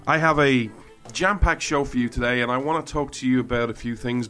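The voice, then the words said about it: Irish accent. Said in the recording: “Irishman ... you come for the accent”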